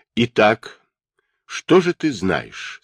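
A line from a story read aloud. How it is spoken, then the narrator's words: Calm. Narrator (Russian): спросил он Джулиана спокойным голосом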